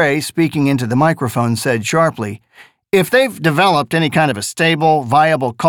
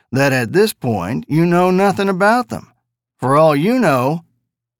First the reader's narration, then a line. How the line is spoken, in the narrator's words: the reporter purred